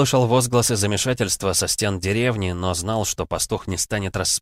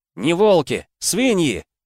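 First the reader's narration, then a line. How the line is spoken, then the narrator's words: Shouted. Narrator (Russian): крикнул игрорыцарь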